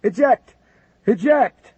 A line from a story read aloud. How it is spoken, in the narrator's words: Canned Jemmy yelled to his RIO